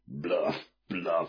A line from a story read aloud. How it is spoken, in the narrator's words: snapped